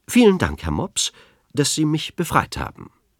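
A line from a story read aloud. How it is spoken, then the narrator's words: Loud and clear. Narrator (German): ebenso laut und deutlich sagte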